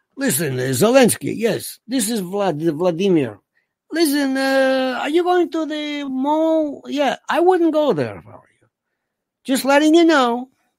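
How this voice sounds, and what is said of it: Put-on foreign accent imitating another person. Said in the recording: “I don't know why I'm doing a listen. What is that, Charo? I don't know what kind of accent that is”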